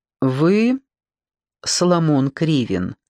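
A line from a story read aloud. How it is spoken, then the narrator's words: Low velvety question. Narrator (Russian): низким голосом с какими-то бархатистыми обертонами спросил господин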